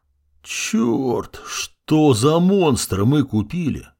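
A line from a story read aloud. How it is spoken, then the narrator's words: Dazed groan. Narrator (Russian): простонал я, едва придя в чувство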